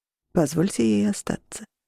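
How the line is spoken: Quiet. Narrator (Russian): тихо произнес Орланд

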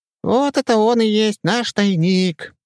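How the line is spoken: Proud squeak, then sniffing. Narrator (Russian): с гордостью пропищал и шмыгнул носом

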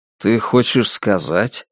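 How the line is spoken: Forced calm tone. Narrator (Russian): стараясь говорить спокойным тоном, произнес Джек

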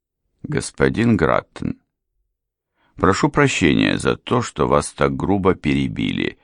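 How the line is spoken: Calm, composed. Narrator (Russian): все так же спокойно и невозмутимо продолжал сэр Тревик

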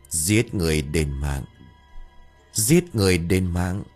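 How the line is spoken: Deep gruff voice from child. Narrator (Vietnamese): từ trong cổ họng của thằng bé phát ra một cái giọng ồm ồm

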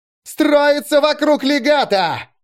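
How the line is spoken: Yelling. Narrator (Russian): орал Чито

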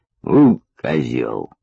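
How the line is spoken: Muttered under breath. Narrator (Russian): пробурчал себе под нос Лелик

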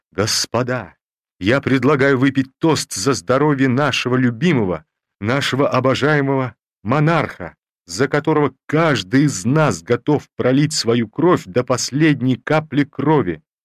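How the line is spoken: Drunk hoarse emotional shout. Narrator (Russian): Тальман, уже достаточно пьяный, закричал сипло, но растроганно

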